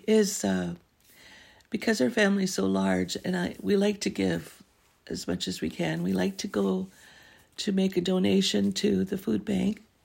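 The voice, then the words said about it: Hoarse, fading voice. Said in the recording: “I'm losing my voice a little bit ... I'm losing my voice.”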